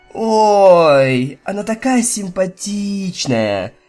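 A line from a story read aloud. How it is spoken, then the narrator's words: Drawl, suppressing laughter. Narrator (Russian): протянула Rainbow Dash, пытаясь не смеяться, что у нее выходило не очень хорошо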